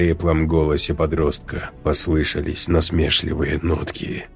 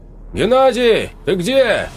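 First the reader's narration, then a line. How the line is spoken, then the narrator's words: Man shouting. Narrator (Russian): выкрикнул мужчина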